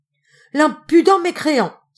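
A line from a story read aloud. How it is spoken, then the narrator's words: Exclamation. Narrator (French): s'écria le tailleur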